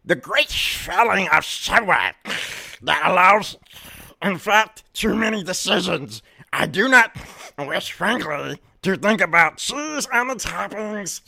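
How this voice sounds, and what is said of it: Imitates another person's voice. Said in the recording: “my impression of Zyzek ... Zyzek voice”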